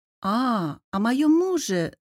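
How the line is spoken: Singsong drawl. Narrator (Russian): нараспев протянула я

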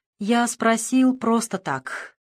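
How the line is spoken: Tired speech. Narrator (Russian): проговорил устало

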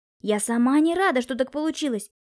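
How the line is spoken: Tearful outcry. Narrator (Russian): Олеся со слезами на глазах выкрикнула

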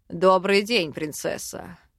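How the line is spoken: Smirking snort. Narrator (Russian): Хмыкнул

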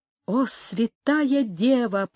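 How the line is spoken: Whispered. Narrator (Russian): прошептал он

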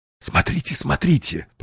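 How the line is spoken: Whisper. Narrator (Russian): прошептал Уэллс

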